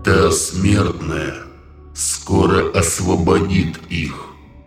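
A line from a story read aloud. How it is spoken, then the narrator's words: Sudden monster bass. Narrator (Russian): неожиданно пробасил монстр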